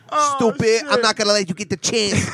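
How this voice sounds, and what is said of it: Imitates another person's voice. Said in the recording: “you sound just like that. ... You do good impressions. ... Good impression.”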